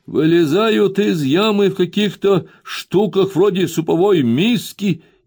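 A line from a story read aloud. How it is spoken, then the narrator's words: Shouting. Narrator (Russian): крикнул, как мне послышалось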